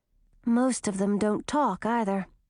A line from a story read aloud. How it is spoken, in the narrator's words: muttered Christina